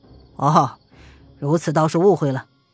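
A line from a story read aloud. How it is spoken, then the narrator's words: Faint smile, calm. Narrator (Chinese): 黑须人淡淡一笑，其说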